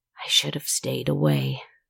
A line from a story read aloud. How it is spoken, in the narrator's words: she whispered